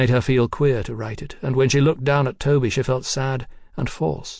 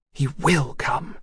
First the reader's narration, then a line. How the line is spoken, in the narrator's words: she whispered fiercely